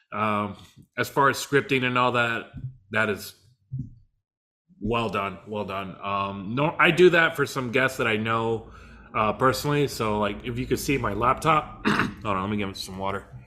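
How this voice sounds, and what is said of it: Voice giving out, strained. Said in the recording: “Losing my voice.”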